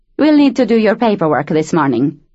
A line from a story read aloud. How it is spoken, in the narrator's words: the woman said curtly